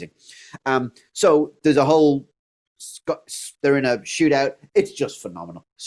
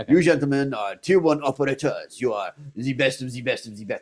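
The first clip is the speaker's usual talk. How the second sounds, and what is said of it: Jeremy Irons doing an American accent. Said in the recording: “this is his accent ... This is how good his accent is, right? This is how it sounds ... That's his American accent.”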